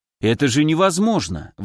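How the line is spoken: Exclaiming. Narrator (Russian): воскликнул Лазарь

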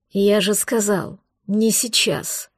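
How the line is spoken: Angry growl. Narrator (Russian): зарычал он, осознавая, что ее нетерпение побыстрее отправиться подальше от него не знает границ

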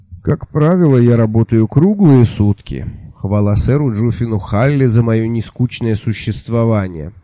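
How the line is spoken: Sigh. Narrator (Russian): вздохнул

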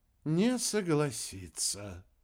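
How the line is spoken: Sigh. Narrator (Russian): вздохнул Рикки

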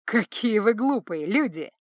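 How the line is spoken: Speaking through laughter. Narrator (Russian): сквозь смех проговорил он

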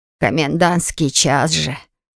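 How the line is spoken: Good-natured grumble. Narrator (Russian): Беззлобно ворчала она

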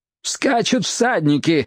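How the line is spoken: Shouted. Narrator (Russian): закричал Лейб

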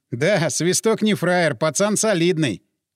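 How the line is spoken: Laughing. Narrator (Russian): Крюка засмеялся

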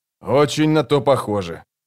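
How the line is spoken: Grumbled. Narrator (Russian): проворчал он

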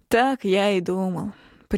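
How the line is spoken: Mock sigh. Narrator (Russian): притворно вздохнул

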